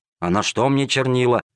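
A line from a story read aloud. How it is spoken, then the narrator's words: Grumbling. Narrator (Russian): ворчал незадачливый проситель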